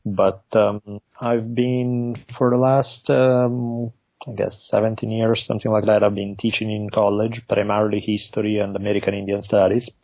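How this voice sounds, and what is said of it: Italian accent. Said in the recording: “I grew up in Italy, moved to the U.S. by now a long time ago, even though my accent just never goes away.”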